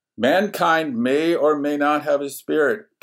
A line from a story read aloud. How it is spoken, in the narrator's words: roared